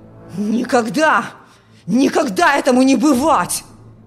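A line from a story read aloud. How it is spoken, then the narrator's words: Furious shouting. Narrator (Russian): В ярости кричал отец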